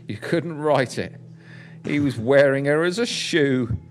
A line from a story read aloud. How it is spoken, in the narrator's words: the detective said quite loudly on the phone